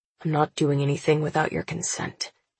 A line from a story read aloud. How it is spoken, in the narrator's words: he mutters